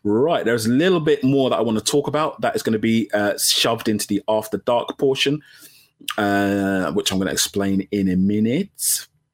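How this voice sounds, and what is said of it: Hoarse, croaky voice. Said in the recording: “My voice is croaking.”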